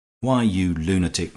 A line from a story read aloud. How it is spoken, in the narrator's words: cried Henry, in tones of ringing sincerity